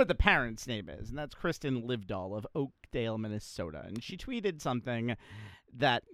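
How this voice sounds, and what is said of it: Usual voice. Nothing is said of it.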